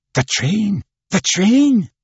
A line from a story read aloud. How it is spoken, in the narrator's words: he exclaimed